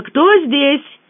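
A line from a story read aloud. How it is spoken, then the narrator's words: Shouted. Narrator (Russian): она крикнула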